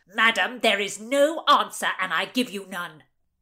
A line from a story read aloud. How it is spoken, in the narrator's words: He barked